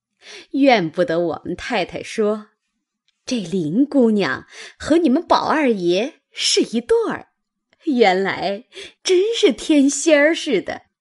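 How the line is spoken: Sly sneering. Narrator (Chinese): 阴笑着向袭人道

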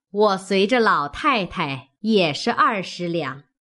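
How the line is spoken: Laughing. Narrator (Chinese): 薛姨妈笑道

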